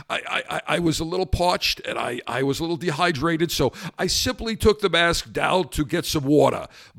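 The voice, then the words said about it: Raspy voice with New York accent. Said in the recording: “He's got a little bit of a New York accent, a little raspy voice.”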